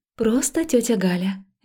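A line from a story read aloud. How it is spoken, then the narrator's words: Soft, soothing. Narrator (Russian): мягко произнесла я, стараясь его успокоить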